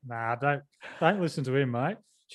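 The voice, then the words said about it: Put-on Australian accent. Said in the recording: “She's Australian. That's why I did an Aussie accent there.”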